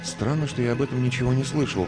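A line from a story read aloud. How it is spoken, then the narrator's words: Muttered aloud. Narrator (Russian): пробормотал я вслух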